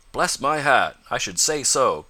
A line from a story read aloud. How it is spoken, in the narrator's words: cried Mr